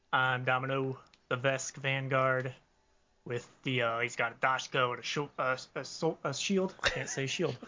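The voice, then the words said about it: Speaks in an unusual put-on accent. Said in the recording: “What's that accent?”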